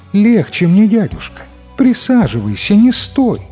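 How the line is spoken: Sweet female voice. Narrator (Russian): кукла говорит милым женским голосом

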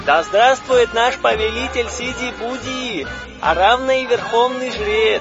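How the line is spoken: Crowd shouting. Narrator (Russian): Кричали арапы и громче всех махровые

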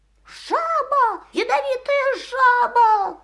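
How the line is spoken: Shouting. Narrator (Russian): кричал он

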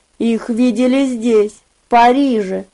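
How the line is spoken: Soft. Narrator (Russian): мягко произнес он

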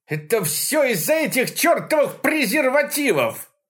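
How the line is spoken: Shrill shout. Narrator (Russian): прокричал пронзительно

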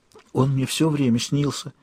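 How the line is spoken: Whisper. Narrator (Russian): шепнула мне Санни

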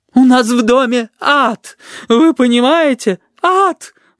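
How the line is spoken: Sobbing woman exclaiming. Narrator (Russian): восклицала женщина, не переставая всхлипывать

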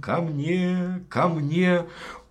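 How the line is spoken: Tender calling voice. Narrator (Russian): фея стала звать нежным голосом

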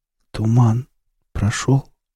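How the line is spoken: Faint half-dead voice. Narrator (Russian): полумертвым голосом спросил гоблин

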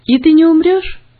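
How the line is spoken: Cheerful young boy asking. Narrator (Russian): весело спросил брат, который был на год моложе меня

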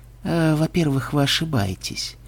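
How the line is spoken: Sighing. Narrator (Russian): вздохнул Ксенобай

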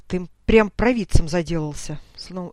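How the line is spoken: Gloomy grumble, captain. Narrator (Russian): снова помрачнев, проворчал капитан

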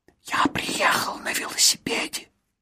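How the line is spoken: Whispered. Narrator (Russian): прошептал он

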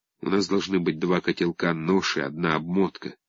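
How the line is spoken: Whisper over creaking train. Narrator (Russian): под скрип двинувшегося поезда шепнул Сергей Ванюшке

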